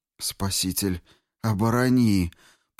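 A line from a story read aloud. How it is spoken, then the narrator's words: Moaning. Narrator (Russian): простонал Рико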